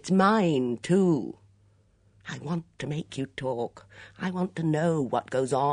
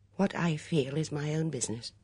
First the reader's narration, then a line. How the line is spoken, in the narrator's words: Philippa said quietly